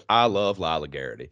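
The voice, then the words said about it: Put-on Southern American accent. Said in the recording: “when I need to do a Southern accent ... I would say that line to myself out loud to like get myself into the mode”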